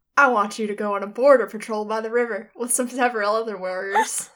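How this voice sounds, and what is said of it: Cowboy character voice. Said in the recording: “Who wants to do the cowboy voice for this?... That was perfect.”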